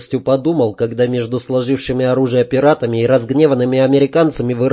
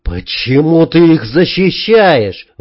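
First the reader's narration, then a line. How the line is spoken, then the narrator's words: Shout. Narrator (Russian): выкрикнул Герберт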